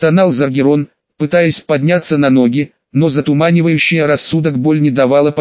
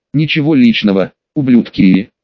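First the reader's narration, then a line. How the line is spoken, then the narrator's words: Hoarse rasp. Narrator (Russian): прохрипел Заргерон, до крови закусывая губу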